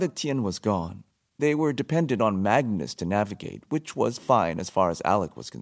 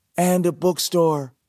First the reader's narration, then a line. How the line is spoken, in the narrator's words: Clary put in eagerly